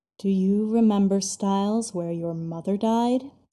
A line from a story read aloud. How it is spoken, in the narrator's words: he growls, but this time it's low and quiet